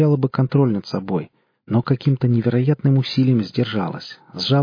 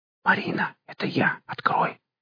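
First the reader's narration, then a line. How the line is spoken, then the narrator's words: Quiet whisper through door. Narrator (Russian): Тихий шепот из-за двери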